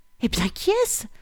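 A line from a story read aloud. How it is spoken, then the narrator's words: Breathless question. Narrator (French): demanda toute haletante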